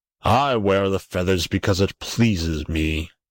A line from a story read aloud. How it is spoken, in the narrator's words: growled the king